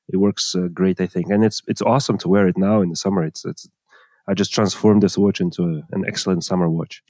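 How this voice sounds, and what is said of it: Speaks with a noticeable accent. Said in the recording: “I like the way you say blend with your accent.”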